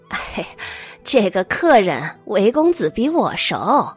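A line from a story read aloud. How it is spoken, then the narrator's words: Laughing. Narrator (Chinese): 老鸨笑了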